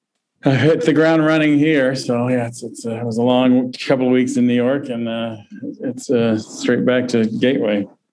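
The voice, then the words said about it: Tired-sounding voice. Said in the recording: “you sound tired.”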